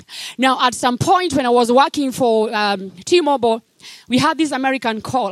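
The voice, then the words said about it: African accent. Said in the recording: “I can tell your accent is African”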